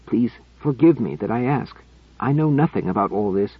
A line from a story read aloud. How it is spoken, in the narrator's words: he added in a choked whisper